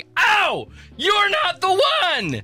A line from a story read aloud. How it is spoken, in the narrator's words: yelling